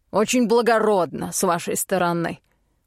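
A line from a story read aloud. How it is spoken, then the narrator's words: Snorting. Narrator (Russian): фыркнул Голд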